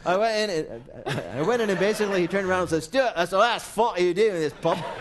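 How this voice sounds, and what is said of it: Weak attempt at Scottish accent. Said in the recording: “you got to do it with a Scottish accent ... That's not good. I can't do it.”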